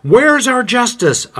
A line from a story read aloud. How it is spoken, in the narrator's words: Others exclaim